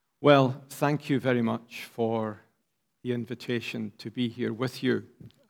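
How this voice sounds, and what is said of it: Scottish accent. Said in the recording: “You'll gather from my accent, I'm not from here ... Inverness in the north of Scotland, where I live”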